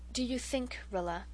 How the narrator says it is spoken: Mother said quietly, far too quietly

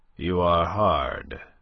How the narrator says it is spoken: he said grimly

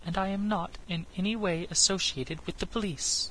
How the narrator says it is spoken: she replied calmly

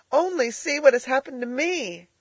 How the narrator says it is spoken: cried Elnora

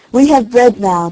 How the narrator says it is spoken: they cried

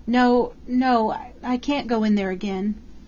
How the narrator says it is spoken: crying in a child's whimper

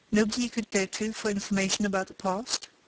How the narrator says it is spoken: asked Spargo

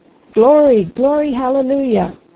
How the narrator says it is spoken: He sang it through at the top of his lungs, that majestic old hymn, but there was no music at all, it was simply a roar

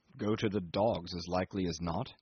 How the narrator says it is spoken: answered in a gruff mutter

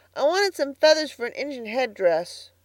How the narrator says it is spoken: said Davy, sulkily

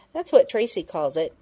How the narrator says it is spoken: Penny explained impatiently

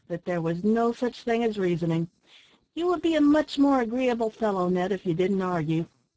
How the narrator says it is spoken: sighed Tom Collins, languidly

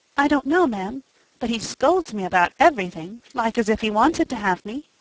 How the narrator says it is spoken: the poor child murmured

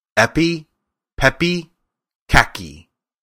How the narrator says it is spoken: Then she stood upon her left foot and said slowly

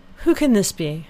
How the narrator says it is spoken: cried Elinor

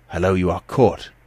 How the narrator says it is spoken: he exclaimed

